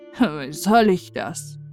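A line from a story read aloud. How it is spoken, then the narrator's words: Old man sighing. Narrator (German): seufzte der Alte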